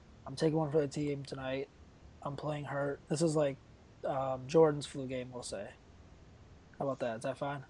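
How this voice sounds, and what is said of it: Scratchy sore-throat voice. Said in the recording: “I have a sore throat, so if my voice sounds scratchy”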